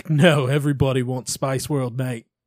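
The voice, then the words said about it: Imitated Australian accent. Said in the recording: “the man that had curly hair and an Australian accent ... What's that accent you're doing? ... he was Australian”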